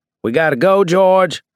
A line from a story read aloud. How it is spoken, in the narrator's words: I yelled